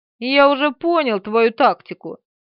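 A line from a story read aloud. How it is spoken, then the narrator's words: Snide remark. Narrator (Russian): ехидно заметил тот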